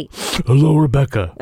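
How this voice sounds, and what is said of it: Imitates another person's voice. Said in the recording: “my Toby impression ... That was not a good Toby impression”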